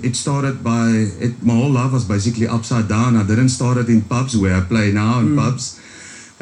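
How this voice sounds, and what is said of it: Strong Afrikaans accent. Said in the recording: “Like you can hear, I've got a strong Afrikaans accent.”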